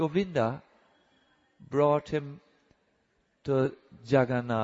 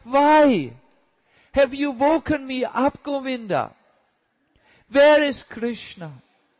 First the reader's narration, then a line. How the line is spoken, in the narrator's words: he cried